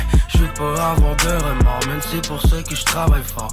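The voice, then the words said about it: Slight Québécois accent. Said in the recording (French): “le rappeur québécois Fouki. Il a un petit accent quand même, on l'entend bien, oui.”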